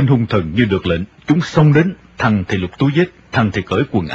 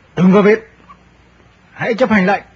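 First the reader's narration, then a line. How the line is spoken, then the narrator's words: Arrogant barked order. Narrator (Vietnamese): Tên mặc áo vest cao mặt quát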